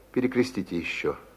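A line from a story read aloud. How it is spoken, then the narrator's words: Quiet. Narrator (Russian): сказал тихо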